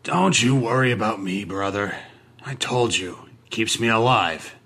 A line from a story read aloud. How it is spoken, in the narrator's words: he grumbled